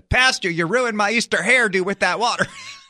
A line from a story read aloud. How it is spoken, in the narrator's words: Irma yelled at me and said